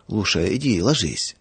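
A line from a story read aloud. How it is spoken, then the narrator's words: Muffled request. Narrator (Russian): Глуховатым голосом попросил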